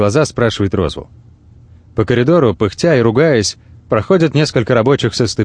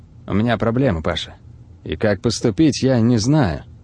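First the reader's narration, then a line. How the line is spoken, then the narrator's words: Low voice. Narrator (Russian): Розвелл говорит вполголоса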